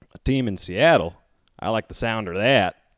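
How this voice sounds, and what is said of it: Put-on Texan southern accent. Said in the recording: “I didn't know you had a southern accent in you, just waiting to come out ... my Texas is impeccable”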